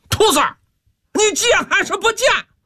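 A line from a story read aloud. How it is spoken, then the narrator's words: Furious roar. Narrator (Chinese): 木来气急败坏，大吼一声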